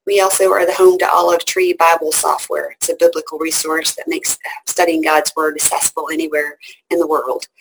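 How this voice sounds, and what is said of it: Southern American twang. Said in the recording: “you hear the southern twang. I'm definitely southern.”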